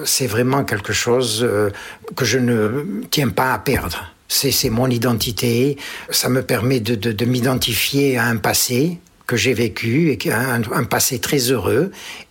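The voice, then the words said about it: Strong pied-noir French accent. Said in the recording (French): “l'accent pied-noir reste quand même très très puissant”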